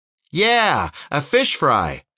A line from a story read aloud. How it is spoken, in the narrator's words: Little Bit shouted